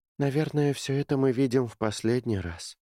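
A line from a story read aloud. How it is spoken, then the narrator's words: Sighing. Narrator (Russian): вздохнула Кэти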